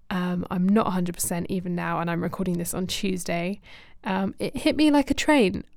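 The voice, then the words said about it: Voice sounding unwell. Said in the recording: “You can probably still hear it in my voice.”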